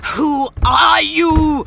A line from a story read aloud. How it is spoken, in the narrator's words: she roared at him